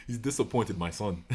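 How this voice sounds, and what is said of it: Put-on Nigerian accent. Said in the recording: “why did you do the Nigerian voice for God? ... I give my God the Wakandan accent.”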